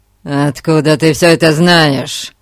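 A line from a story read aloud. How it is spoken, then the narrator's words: Barking. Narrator (Russian): рявкнул Билл Лоренцо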